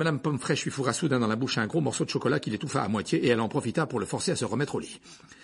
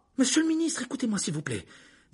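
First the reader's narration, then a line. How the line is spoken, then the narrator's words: Imploring. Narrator (French): dit Hermione en regardant Fudge d'un air implorant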